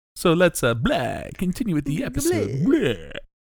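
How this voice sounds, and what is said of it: Put-on Transylvanian vampire accent. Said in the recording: “I don't know what that accent is. ... Transylvanian.”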